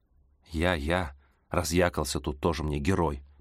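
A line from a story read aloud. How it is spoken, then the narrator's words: Grumbling. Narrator (Russian): пробурчала я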